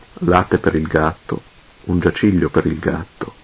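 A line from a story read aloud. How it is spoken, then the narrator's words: Murmuring. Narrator (Italian): mormorò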